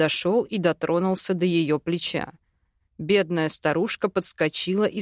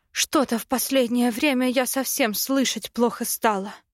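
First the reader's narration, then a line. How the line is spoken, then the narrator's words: Woman's sigh. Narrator (Russian): вздохнула женщина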